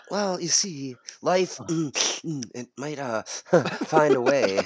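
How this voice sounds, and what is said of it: Stuttering impression of an actor. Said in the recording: “Do the Jeff Goldblum impersonation ... it's just a stutter”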